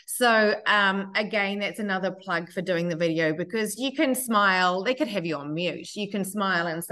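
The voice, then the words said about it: Speaks with an accent. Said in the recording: “having an accent can work for you and against you, and especially speaking on the phone”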